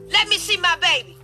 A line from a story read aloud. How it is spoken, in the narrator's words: he yelled